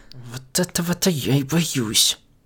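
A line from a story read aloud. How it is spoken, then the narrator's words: Barely audible mumble. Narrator (Russian): Едва слышно пробормотала Бон-Бон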